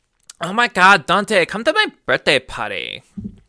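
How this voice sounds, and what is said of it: High-pitched anime girl voice. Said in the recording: “a fucking high-pitched anime girl voice. ... That is her voice, and it's ... annoying.”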